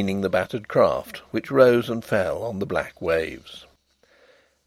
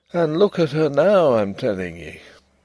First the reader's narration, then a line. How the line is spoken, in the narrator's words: he would say gloomily